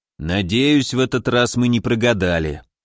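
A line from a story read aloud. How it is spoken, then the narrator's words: Grim. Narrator (Russian): мрачно сказал Тимур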